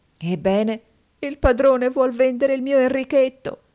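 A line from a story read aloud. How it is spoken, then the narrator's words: Convulsive sobbing. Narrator (Italian): la povera donna singhiozzava, convulsa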